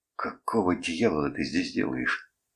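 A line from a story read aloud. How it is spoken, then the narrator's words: Grated through clenched teeth. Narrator (Russian): сквозь зубы проскрипел я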